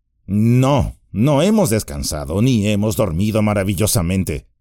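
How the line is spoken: Grumbling. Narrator (Spanish): refunfuñó Sam

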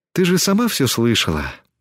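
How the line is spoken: Sighing. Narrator (Russian): вздохнула Тесми

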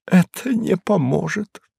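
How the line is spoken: Muttered. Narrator (Russian): пробормотал он

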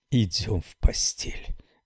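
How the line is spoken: Whisper. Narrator (Russian): прошептала

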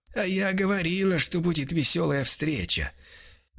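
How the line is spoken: Hoarse rasp. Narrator (Russian): Растирая горло, прохрипел

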